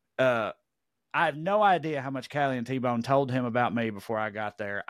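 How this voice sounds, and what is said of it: Tennessee Southern accent. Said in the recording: “heard my accent, where he from, Tennessee ... a progressive hillbilly”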